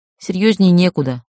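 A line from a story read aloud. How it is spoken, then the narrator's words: Snort. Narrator (Russian): фыркнула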